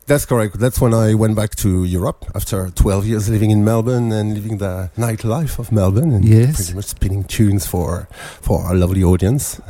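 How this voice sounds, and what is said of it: French accent. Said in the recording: “your beautiful French accent”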